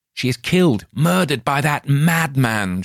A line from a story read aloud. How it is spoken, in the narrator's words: shouted Lothair